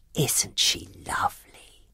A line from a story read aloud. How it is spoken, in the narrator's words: whispered Mrs